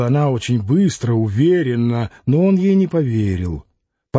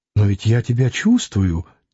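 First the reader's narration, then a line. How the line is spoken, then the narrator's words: Quiet exclamation. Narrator (Russian): тихо воскликнула она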